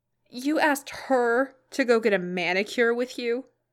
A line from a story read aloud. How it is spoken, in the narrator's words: Madison choked, snorting around her Coke